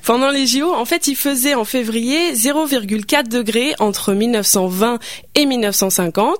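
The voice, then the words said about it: Speaker's own regional French accent. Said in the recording (French): “avec mon accent, ça peut être trompeur”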